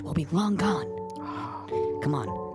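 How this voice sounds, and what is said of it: Lowered, quieter voice. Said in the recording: “I gotta lower my voice.”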